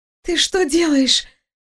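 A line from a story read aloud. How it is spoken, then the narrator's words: Surprised hoarse wheeze. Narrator (Russian): просипела она, явно не ожидая, что ее последний оплот падет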